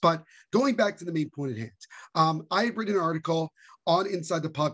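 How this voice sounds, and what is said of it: Slightly strained, worn-out voice. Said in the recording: “I used my voice quite a lot yesterday... I was in the supporter section... singing and yelling basically for the full game... my voice is a little bit not 100% today”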